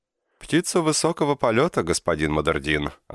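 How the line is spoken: Laughing. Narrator (Russian): засмеялся он

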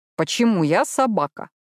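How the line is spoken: Grumbled under breath. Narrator (Russian): проворчал себе под нос Мэтью

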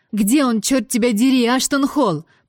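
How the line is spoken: Deafening shout. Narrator (Russian): прокричала в динамик, оглушив собеседника

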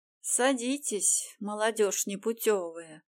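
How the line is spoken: Old woman grumbling. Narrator (Russian): проворчала старейшая

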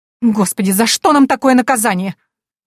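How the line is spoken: Shrill woman's exclamation. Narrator (Russian): визгливо воскликнула женщина

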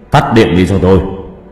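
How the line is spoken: Man's loud shout. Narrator (Vietnamese): Ông ta hét lớn

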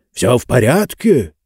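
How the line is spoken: Loud whisper. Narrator (Russian): громким шепотом спросил Джонс

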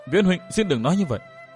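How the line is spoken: Choked with emotion. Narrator (Vietnamese): Tôn Nam Linh nghẹn ngào nói

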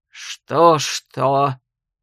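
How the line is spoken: Fierce growl. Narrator (Russian): свирепо рыкнул Ян

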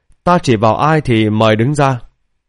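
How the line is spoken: Smiling. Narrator (Vietnamese): Lý Bình An thì mỉm cười ... nói

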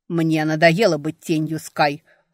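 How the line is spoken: Growl. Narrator (Russian): рыкнул Джесси

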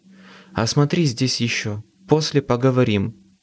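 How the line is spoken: Plain. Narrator (Russian): сказала она

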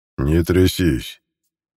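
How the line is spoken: Less menacing. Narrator (Russian): уже менее грозно произнес Альфа

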